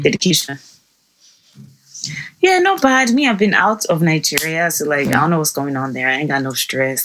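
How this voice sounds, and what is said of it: Sleepy, just-woken-up voice. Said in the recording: “Can I not hear it in my voice? I'm still asleep. My body is still asleep.”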